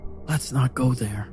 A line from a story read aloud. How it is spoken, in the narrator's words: I said quietly